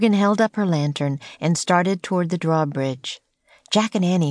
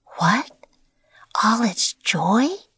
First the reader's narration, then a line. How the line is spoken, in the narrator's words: whispered Annie